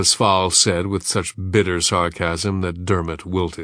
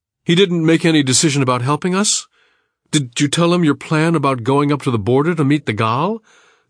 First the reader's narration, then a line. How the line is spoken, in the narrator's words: John Kendi Lee stammered, hasty and disappointed